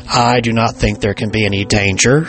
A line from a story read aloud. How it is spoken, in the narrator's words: said Reverend Crawford